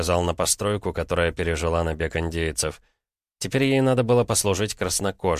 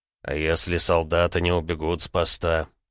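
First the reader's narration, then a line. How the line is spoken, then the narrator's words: Uncertain question. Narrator (Russian): неуверенно спросил Джозайя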